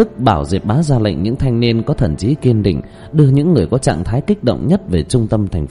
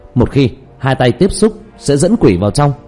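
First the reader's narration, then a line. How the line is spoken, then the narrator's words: Loud cry through megaphone. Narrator (Vietnamese): Diệp Tiêu Dương giật lấy loa, lớn tiếng kêu lên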